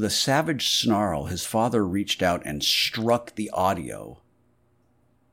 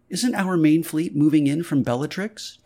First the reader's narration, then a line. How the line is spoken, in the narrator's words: Tony's mother fluttered anxiously